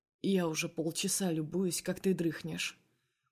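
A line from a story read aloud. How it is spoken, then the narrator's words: Quiet smirking. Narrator (Russian): усмехается тихо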